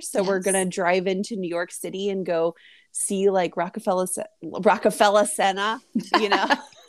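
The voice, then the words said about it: Put-on New Jersey accent. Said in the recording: “You're already rocking the New Jersey accent.”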